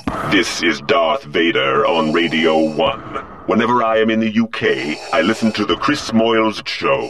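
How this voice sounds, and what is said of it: Darth Vader impression, breathing while talking. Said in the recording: “I don't think that's the real Darth Vader... Because he's breathing at the same time he's talking... It's clever, but no.”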